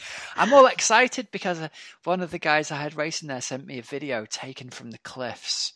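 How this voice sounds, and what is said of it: Usual voice. Nothing is said of it.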